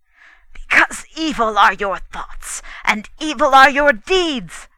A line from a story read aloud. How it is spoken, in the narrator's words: he cried